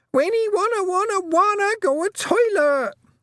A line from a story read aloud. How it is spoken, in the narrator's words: Wentworth shrieked